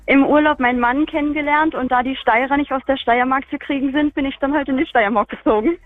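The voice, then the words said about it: Berlin German accent. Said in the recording (German): “ein echter Feldbacher hätte jetzt Feldbach gesagt ... das ist noch der Berliner Dialekt von damals”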